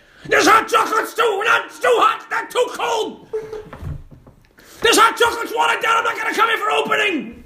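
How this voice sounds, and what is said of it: Loud, high-pitched shouting impression. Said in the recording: “Gets loud and high. ... I go loud and high. ... quick impersonation of the guy from Bar Rescue”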